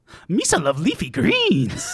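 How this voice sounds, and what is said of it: Jar Jar Binks character voice. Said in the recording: “your Jar Jar Binks impression”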